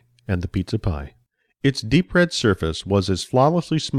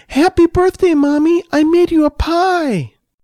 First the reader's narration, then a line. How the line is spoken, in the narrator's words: Excitedly, she called out